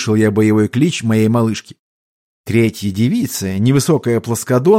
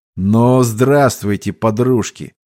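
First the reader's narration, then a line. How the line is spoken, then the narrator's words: Menacing, unfriendly voice. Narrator (Russian): голос прозвучал грозно и неприветливо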